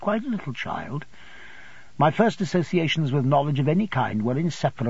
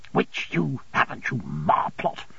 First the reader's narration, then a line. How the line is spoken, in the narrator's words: observed my aunt in an indignant whisper